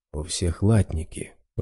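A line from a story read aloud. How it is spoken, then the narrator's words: Whispered. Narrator (Russian): прошептал Раз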